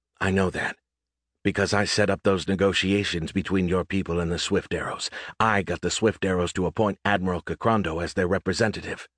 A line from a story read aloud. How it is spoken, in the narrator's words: Lowering her voice, she added